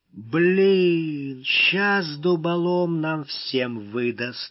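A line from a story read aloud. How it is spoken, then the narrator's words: Sullen, through teeth. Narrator (Russian): угрюмо процедил зубач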